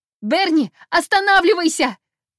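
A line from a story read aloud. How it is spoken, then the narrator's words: Yelling. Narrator (Russian): заорала я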